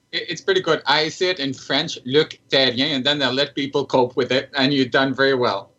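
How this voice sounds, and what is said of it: Speaks with a noticeable accent. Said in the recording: “I love your accent there.”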